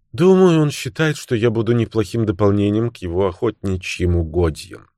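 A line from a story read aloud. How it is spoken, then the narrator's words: Sad speech. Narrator (Russian): печально проговорила Кэрол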